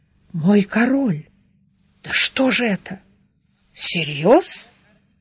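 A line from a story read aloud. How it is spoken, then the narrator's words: Confused mutter, grey-moustached man. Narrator (Russian): седоусый Глэрт растерянно пробормотав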